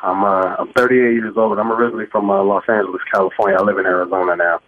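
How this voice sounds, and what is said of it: Emotional, moved voice. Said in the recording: “I'm a bit emotional right now”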